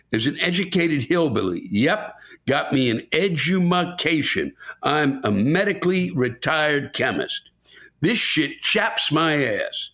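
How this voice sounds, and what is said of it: Southern US (Kentucky) accent. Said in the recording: “my accent comes with me and I am immediately ID'd as a southerner”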